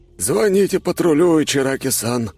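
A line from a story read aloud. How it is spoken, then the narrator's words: Breathless exhale. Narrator (Russian): выдохнул он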